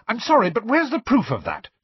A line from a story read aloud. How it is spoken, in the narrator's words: snapped Hermione